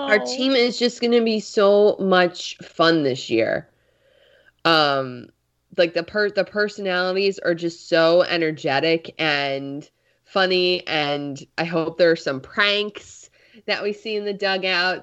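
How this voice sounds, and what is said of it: Congested, slightly weird-sounding voice. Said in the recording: “my voice sounds a little weird right now. I'm a bit congested.”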